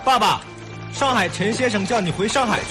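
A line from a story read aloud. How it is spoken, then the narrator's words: Shout from hurrying young man. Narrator (Chinese): 急匆匆奔来的一个瘦高个青年的喊声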